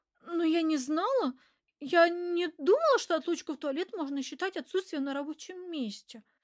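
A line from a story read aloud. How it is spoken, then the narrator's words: Flustered babble. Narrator (Russian): растерянно пролепетала Эльвира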